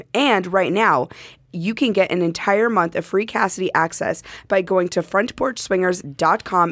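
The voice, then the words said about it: Hoarse, worn-out voice. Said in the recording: “tell from my voice that this is actually post-Pod Bash ... just listen carefully to these voices ... Every year I lose my voice.”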